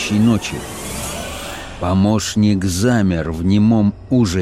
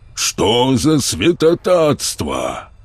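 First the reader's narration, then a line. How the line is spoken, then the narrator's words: Exclamation. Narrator (Russian): третий помощник воскликнул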